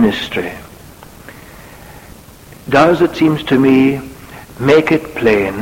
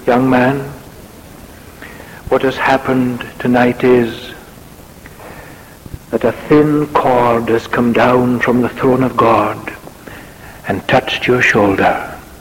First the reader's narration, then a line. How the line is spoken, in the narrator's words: Payson of Portland Place said very solemnly